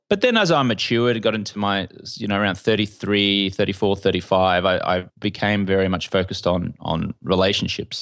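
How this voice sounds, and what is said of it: Australian accent. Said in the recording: “The Australian accent does pretty well out here in California.”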